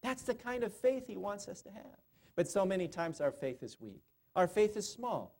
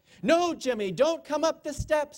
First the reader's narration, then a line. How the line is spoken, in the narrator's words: Aretha shouted